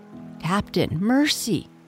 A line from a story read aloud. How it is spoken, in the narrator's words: Starkey whimpered, all of a tremble now